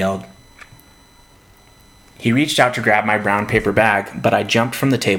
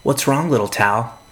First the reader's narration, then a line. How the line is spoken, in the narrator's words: he said